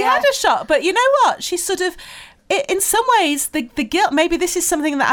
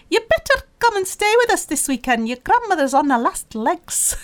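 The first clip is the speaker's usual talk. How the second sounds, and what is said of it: Badly imitated accent. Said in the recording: “excuse the appalling accent”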